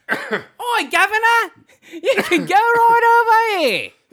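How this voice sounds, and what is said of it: Mixed put-on British accents. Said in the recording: “You mixed about 6 different accents from Britain ... I heard some Cockney. I heard some Birmingham.”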